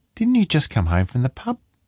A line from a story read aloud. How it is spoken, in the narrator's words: Her voice was light